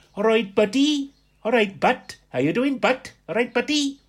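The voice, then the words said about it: Imitates a different regional accent. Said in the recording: “they would come back, of course, with a different accent.”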